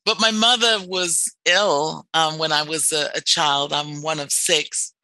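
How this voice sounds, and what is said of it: English accent. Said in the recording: “I'm from England. People should be able to tell by my accent.”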